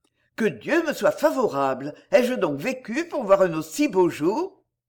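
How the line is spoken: Tearful exclamation. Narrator (French): les yeux pleins de larmes, qui bientôt inondèrent ses joues, il s'écria

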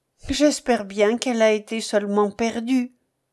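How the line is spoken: Brisk, lively. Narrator (French): dit-elle vivement

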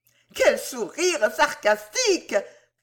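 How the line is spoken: Fiery exclamation. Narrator (French): s'écria l'inflammable Rachel

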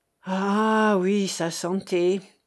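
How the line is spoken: Sad murmur. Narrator (French): murmura le maire, sur le visage duquel passait un nuage de tristesse

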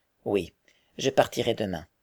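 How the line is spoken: Decided, resolute tone. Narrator (French): dit Frédéric d'un ton décidé

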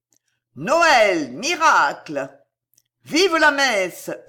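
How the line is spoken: Shout over uproar. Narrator (French): hurla une voix qui domina le tumulte

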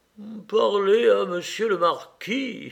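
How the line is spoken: Exclaiming. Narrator (French): s'écria l'intendant

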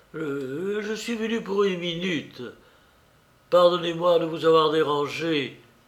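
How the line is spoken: Hesitant voice. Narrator (French): fit-elle d'une voix hésitante

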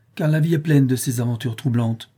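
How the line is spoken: Exclaimed. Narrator (French): s'écria le capitaine Servin

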